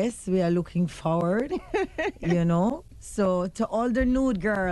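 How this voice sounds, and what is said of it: Usual voice. Nothing is said of it.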